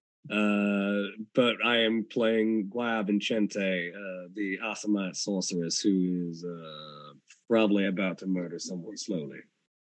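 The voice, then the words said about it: Low, smoky film-noir voice. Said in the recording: “my voice is currently coming to you straight from a 90s noir film”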